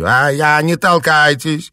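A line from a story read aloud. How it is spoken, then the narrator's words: Shout. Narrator (Russian): крикнула она стоявшим сзади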